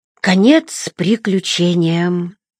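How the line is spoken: Sigh. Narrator (Russian): вздохнул Эггард

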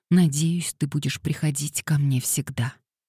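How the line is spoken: Dry-lipped whisper. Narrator (Russian): пересохшими губами прошептала Дейзи

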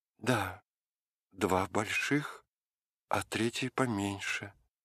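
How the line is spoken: Plain. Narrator (Russian): сказала Галя

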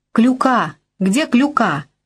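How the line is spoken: Shout. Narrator (Russian): кричала Бася

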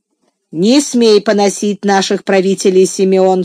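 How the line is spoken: Father's stern rebuke. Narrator (Russian): строго остановил его отец

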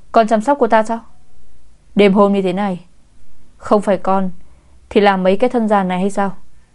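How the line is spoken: Stern old man. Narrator (Vietnamese): Giọng của ông cụ đầy nghiêm nghị, nói

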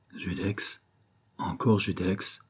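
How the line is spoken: Breathless murmur. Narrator (French): murmurait la fille du banquier oppressée

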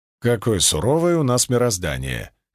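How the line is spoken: Wry snort. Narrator (Russian): хмыкнул я

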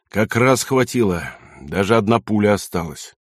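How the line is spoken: Tired, gloomy sailor. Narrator (Russian): рослый мрачный моряк устало сказал

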